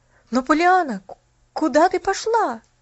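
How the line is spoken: Exclamation. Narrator (Russian): воскликнул Джимми

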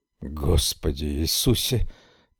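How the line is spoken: Mumble with long sigh. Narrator (Russian): пробормотал Хартман и издал протяжный вздох

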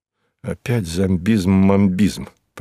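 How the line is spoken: Grumbled. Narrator (Russian): проворчал я

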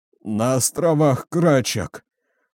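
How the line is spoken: Groaning. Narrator (Russian): простонал майор

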